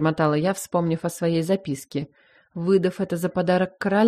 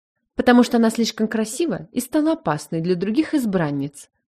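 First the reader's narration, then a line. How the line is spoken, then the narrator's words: Sharp tone. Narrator (Russian): резко произнесла Адиль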